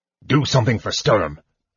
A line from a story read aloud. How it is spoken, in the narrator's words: he said irritably